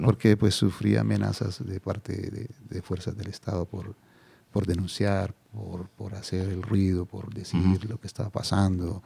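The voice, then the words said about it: Calm, unhurried Colombian Spanish accent. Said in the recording (Spanish): “hablas con tu acento colombiano, que a nosotros nos suena muy tranquilo, muy sosegado”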